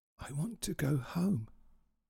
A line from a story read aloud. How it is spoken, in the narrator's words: whispered little